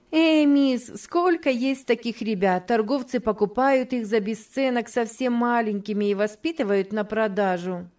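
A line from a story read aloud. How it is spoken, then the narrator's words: Giggling, said. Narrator (Russian): Джейн хихикнула и сказала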